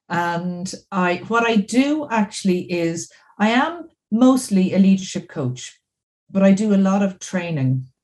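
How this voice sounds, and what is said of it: Irish accent. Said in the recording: “we all know just by your accent that you're not from Canada or the US ... So I'm from Dublin in Ireland.”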